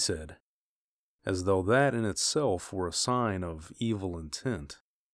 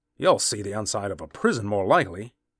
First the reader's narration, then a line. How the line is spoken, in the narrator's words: snapped the young man